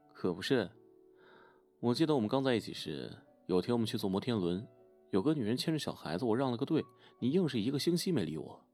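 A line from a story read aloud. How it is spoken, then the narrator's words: Smiling. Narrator (Chinese): 他笑一笑说道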